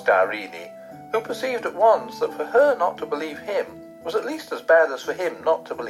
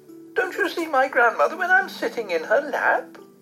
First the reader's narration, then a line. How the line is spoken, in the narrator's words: exclaimed the princess